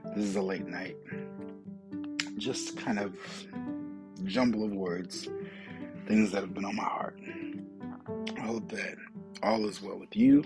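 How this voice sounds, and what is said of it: Hoarse, failing voice. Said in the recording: “Held that cough in for as long as I could ... as I sit here losing my voice”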